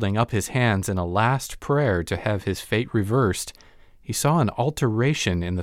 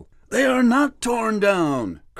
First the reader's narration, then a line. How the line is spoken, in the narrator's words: cried Scrooge